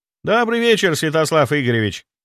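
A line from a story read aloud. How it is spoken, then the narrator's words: Cheerful ghostly greeting. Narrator (Russian): бодро поприветствовал призрак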